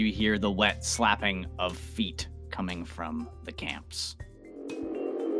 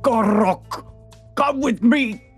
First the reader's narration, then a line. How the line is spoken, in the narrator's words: a bullywug shout